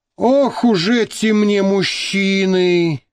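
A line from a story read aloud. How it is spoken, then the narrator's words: Sighing. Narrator (Russian): вздохнула Маша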